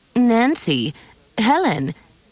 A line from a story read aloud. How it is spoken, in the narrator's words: Emily's aunt exclaimed